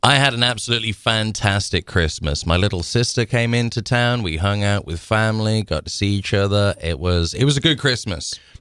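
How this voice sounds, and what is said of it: Birmingham English accent. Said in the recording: “your Birmingham, England accent”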